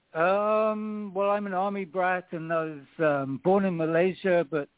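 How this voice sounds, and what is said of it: English accent. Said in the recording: “your accent is from where? ... It's from England.”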